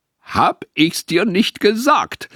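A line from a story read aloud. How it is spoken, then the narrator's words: Triumphant call. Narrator (German): rief er triumphierend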